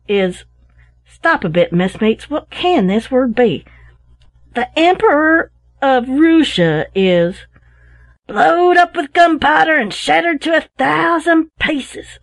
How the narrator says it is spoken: said Tom Lokins, raising his voice with excitement as he read from his paper

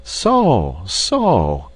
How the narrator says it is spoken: exclaimed Ludwig with deep interest

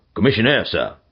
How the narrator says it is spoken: said gruffly

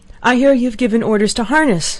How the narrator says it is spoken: she cried, panting

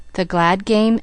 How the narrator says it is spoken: asked the man

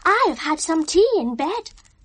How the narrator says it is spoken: Saltina excitedly

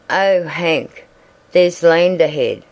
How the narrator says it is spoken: exclaimed

